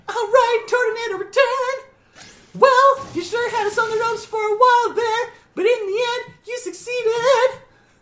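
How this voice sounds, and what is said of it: High falsetto voice. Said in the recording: “with your falsetto going off, it kind of just sounds like you were about to throw out another Pokemon.”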